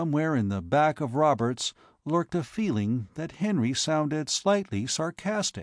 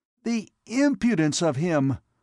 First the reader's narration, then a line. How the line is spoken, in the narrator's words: he exclaimed